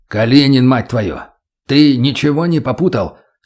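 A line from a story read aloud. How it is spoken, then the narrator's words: Stern bark. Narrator (Russian): строго рявкнул майор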